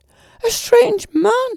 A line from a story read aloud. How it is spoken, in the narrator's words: screeched the lady